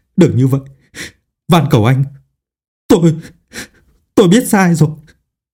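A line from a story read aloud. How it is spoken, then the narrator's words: Stammering, desperate pleading. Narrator (Vietnamese): Trong sợ hãi và tuyệt vọng cực độ, lắp bắp cầu khẩn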